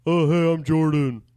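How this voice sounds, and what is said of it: Imitates another person's voice. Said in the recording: “Now, you do her do it. You do it. You do her.”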